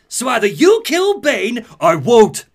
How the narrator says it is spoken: Batman shouts

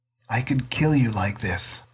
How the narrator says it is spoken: Peter whispered

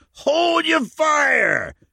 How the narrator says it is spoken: screamed again

